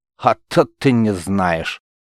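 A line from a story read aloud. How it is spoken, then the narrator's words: Coachman's angry smirk. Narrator (Russian): зло хмыльнулся возница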